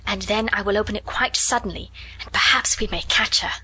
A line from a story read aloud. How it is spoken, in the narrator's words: whispered